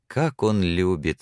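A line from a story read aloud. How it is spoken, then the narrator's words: Laughing with pride. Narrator (Russian): засмеялась она, и в голосе ее слышалась гордость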